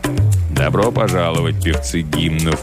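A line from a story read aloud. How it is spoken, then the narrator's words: Low voice. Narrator (Russian): проговорил он низким голосом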